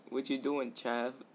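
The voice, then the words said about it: Attempted British accent. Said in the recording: “I could pull off a British accent”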